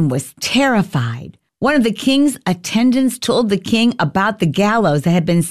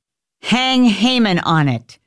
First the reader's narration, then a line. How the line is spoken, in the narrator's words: said the king